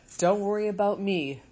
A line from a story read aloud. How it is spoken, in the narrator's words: Mother Bear growled to Nettle and Thorn